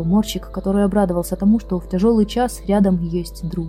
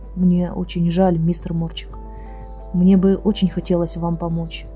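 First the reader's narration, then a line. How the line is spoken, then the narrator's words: Quiet machine voice. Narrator (Russian): Машина негромко сказала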